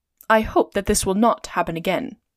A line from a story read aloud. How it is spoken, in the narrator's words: said Phileas Fogg coldly